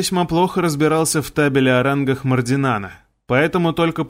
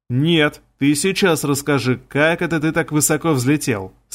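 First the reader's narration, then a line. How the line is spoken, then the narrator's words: Plain. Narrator (Russian): сказал Крот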